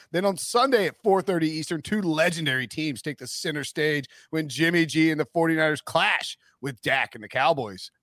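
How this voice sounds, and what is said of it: Formal broadcast announcer voice. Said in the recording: “this is a serious big CBS read ... straightforward Announcer voice”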